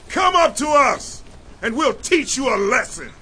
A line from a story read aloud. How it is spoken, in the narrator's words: The men of the outpost shouted to Jonathan and his armor-bearer